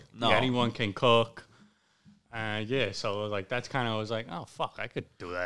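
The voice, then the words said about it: Italian accent. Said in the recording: “your Italian accent ... you sound exactly like my Aunt Jeanette”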